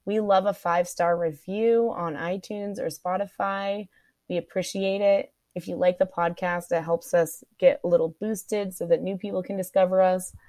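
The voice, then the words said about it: Croaky, hoarse voice. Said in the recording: “My voice is kind of croaky. ... I lose my voice.”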